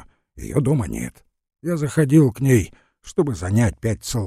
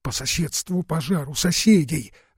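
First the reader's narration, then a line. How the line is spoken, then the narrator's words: Breathless whisper. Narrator (Russian): задыхаясь, прошептала, вбегая Форова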